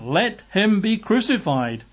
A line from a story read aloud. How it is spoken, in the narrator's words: they cried out all the more, saying